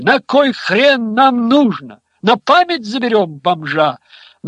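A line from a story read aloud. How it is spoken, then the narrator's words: Yelled by a group. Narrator (Russian): Нариковцы завопили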